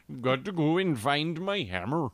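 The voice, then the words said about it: Exaggerated Fargo-style Norwegian accent. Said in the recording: “you couldn't have a Thor talk like this ... It's the Norwegian from Fargo.”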